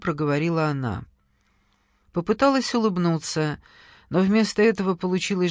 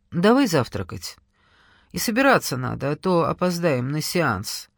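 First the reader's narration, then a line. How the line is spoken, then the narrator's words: Almost normal voice. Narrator (Russian): почти нормальным голосом сказала она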